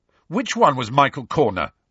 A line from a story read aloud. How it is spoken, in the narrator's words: Ron demanded furiously